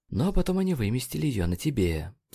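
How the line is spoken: Quiet. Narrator (Russian): тихо сказал Нейт

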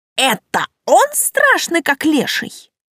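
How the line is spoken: Skeptical snort. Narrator (Russian): Тан хмыкнул

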